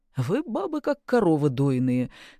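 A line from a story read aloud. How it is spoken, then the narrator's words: Guffawing man. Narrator (Russian): хохотнул мужик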